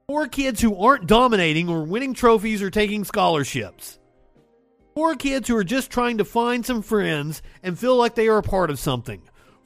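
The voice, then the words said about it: Southern US accent. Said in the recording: “my southern accent.”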